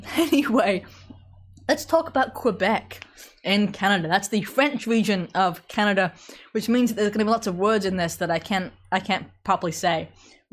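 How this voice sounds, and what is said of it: British accent. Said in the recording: “You talk funny. Yeah, it's a British accent. ... I'm English”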